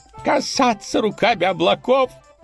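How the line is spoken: Roar. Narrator (Russian): государь взревел

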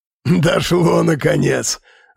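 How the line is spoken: Guard laughing. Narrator (Russian): рассмеялся второй стражник

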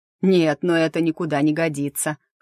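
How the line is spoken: Snorting. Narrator (Russian): хмыкнул Заву

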